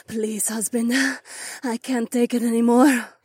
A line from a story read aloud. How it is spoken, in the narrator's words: the highly aroused catwoman gasped